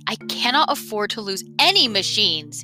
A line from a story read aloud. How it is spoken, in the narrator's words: he bellowed